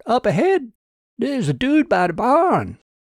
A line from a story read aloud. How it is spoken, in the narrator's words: Trevor called out